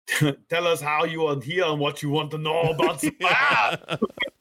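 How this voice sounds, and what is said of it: Put-on German accent, character voice. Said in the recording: “The bearded man speaks in a German accent.”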